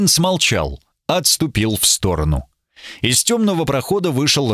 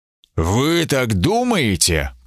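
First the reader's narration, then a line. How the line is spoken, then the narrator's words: Through gritted teeth. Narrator (Russian): процедил сквозь зубы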